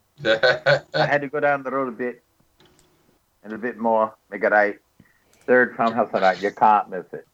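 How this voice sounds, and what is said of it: Put-on Irish accent. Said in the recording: “I'm Irish too. I mean, I can bring up an accent. ... Not a good one.”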